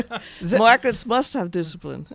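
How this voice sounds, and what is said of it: Put-on German accent. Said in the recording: “where's my German accent?”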